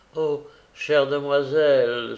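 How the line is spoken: Young girl exclaiming. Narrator (French): s'écria la jeune fille

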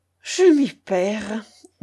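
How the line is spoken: Melancholy murmur. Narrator (French): murmura le baron avec mélancolie

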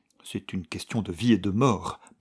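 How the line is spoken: Stammering young man. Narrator (French): balbutia le jeune homme

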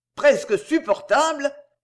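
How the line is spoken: Dazed groan. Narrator (French): gémit Landry Coquenard, assommé par ce dernier coup

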